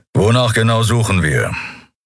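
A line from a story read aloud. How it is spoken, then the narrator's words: Growled. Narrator (German): hörte Endriel Keru hinter sich knurren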